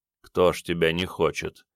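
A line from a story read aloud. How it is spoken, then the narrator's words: Thoughtful mutter. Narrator (Russian): задумчиво пробормотал Горган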